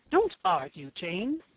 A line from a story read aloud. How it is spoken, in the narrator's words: exclaimed the Duchess crossly